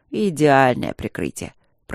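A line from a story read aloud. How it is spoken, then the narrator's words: Grumble. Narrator (Russian): пробурчал Тандаджи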